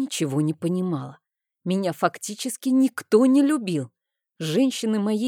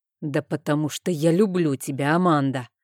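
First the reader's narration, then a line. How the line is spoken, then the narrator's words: Angry. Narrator (Russian): зло произнес он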